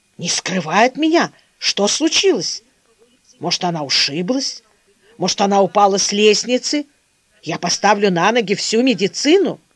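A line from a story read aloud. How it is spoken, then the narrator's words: Quiet, restrained, menacing. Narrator (Russian): сдерживая себя, к тихим, но грозным голосом говорил Константин Артемьевич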